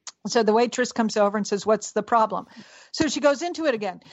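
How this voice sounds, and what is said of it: Usual voice. Nothing is said of it.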